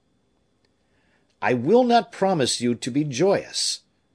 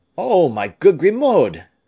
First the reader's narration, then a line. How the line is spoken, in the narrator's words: cried Raoul